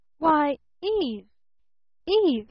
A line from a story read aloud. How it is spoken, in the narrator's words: he stammered